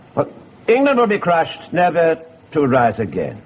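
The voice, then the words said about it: Poor attempt at French accent. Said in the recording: “speak with a French accent ... But it won't do, you know. It really won't.”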